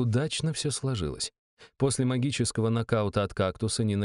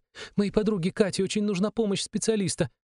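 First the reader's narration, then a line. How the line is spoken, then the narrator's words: Rapid chatter. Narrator (Russian): затараторила девушка с розовыми волосами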